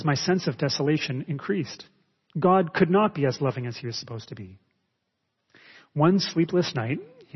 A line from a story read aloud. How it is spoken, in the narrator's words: he says